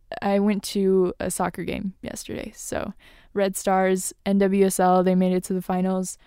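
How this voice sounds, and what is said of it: Rough, tired voice. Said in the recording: “if my voice sounds a bit rough I was yelling all weekend ... apologize for my voice today because it's a bit tired”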